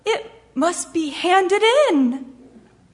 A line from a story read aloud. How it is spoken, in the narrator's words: Thomas wailed